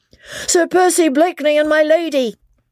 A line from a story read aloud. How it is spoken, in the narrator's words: shouted at the top of his voice